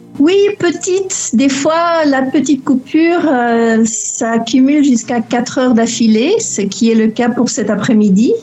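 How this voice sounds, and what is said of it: Slight Belgian French accent. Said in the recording (French): “on entend, si je peux me permettre, un petit accent belge qui traîne dans le fond ... C'est donc là que tu as eu ton petit accent.”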